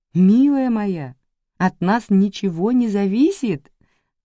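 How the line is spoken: Laughing. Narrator (Russian): рассмеялась Ривер

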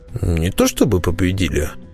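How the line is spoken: Contemptuous snort. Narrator (Russian): хмыкнул презрительно Перевертыш

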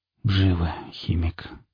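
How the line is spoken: Mutter. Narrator (Russian): пробормотал напарник

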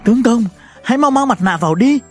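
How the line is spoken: Trembling plea. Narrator (Vietnamese): Lãnh Tuyết Quyên vẫn run rẩy van nài

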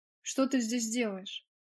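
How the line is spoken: Sharp question. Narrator (Russian): резко спросила Роза

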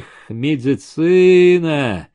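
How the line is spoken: Drawn out, disappointed. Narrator (Russian): Протянул он как-то разочарованно

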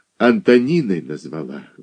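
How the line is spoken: Sighing. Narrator (Russian): вздохнула Иваншина

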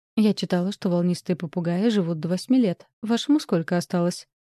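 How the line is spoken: Plain question. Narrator (Russian): спросила

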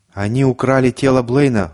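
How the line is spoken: Shouted out. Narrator (Russian): выкрикнул Конча

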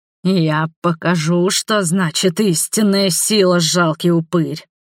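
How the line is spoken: Thunderous growling roar. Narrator (Russian): прорычал Конрад, сотрясая площадь грозным ревом

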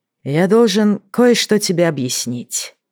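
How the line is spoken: Sigh. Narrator (Russian): вздохнул Дрейк

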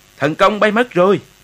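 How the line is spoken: Terrified cry. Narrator (Vietnamese): đại quý Bền thất kinh la lên

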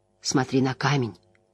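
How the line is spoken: Quiet woman's voice. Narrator (Russian): тихо произнесла Айз Седай

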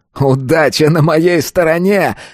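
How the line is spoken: Loud laughter. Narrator (Russian): захохотал тот

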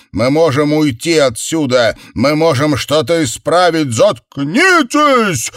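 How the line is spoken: Yelled. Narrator (Russian): завопил

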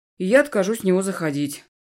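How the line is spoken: Snorting. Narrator (Russian): хмыкнул Эдви

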